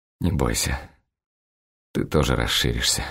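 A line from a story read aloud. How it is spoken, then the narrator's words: Mutter. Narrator (Russian): бормочу я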